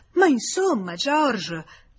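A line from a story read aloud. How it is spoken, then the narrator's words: Exclaimed. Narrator (Italian): esclamò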